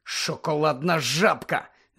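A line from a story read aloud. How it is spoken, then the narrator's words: Angry hiss. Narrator (Ukrainian): злісно засичав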